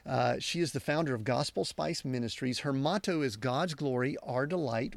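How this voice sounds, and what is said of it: Southern US accent. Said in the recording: “my Southern United States accent”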